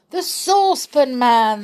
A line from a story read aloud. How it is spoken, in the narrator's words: they all cried